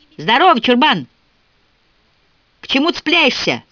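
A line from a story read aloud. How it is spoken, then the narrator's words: Shout. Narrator (Russian): крикнула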